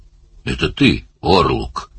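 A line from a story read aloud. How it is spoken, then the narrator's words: Wooden flat voice. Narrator (Russian): начал он деревянным голосом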